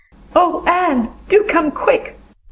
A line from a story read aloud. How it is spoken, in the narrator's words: implored Diana nervously